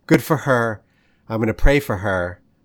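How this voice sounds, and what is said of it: Choked-up emotional voice. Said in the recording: “I get a little choked up.”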